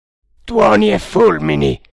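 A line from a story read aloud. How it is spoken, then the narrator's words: Irritated shout. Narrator (Italian): gridò irritato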